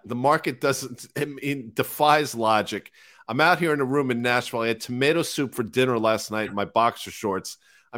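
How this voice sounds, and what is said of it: Rough, worn-out voice. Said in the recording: “My voice is shot.”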